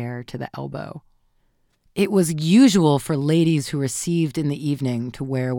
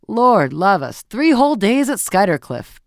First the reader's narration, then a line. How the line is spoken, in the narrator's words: Beaufort was saying in his loud, sneering voice